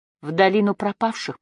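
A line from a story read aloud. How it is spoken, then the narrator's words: Whispering. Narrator (Russian): прошептала она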